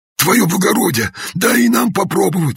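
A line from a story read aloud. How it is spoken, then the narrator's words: Pleading peasant men. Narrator (Russian): взмолились мужики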